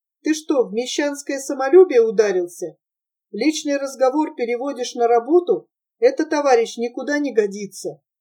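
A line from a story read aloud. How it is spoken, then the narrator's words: Calm question. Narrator (Russian): она спокойно спросила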